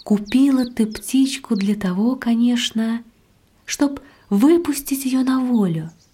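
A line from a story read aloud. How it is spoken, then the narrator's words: Gentle affectionate question. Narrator (Russian): спросила ласково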